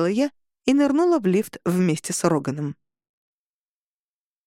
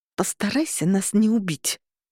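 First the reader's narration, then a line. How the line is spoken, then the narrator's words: Through gritted teeth. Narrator (Russian): процедила сквозь зубы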